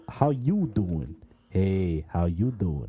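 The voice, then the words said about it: Put-on New York accent. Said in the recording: “a New York accent, I always go back to Joey”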